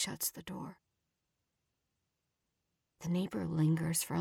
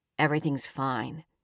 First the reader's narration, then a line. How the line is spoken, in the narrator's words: Sean says